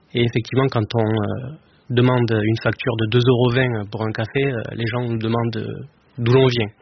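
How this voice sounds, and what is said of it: Slight southern French accent. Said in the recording (French): “j'imagine que ça s'entend à la radio, mais j'ai un petit accent... du sud... de l'Aveyron”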